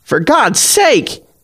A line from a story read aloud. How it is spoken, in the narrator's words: Patty screeches